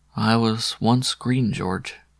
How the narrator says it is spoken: said somewhat sadly

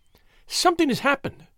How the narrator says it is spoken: she cried

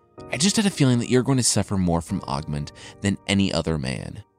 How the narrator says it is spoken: his son said

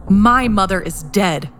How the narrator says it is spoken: Connor growled

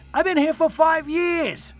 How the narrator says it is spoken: I shouted defensively

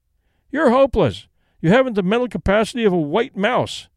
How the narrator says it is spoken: he cried

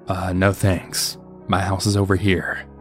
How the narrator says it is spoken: calmly said back

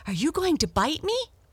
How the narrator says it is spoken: exclaimed Blackie

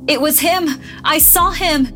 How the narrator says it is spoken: an old man screaming

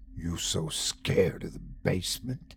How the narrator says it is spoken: hissed

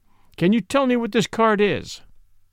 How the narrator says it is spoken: cried

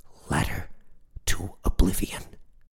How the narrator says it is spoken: Rob replied, nearly whispering

